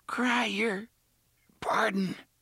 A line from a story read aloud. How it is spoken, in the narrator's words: the man with the frizzy red hair gasped